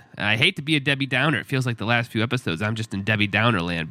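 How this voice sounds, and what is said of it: Sick, congested voice. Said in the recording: “you can probably hear in my voice that my sickness has went to 10 ... It's like my whole a sinus infection.”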